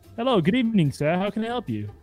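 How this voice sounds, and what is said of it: Put-on fancy hotel-manager accent. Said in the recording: “What's the accent? Why did I pick up an accent ... Fancy hotel”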